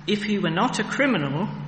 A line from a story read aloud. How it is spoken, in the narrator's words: they replied